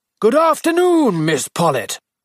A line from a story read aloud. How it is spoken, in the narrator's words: Miss Hartnell, jolly, weather-beaten, 55, shouted out in her usual loud bass voice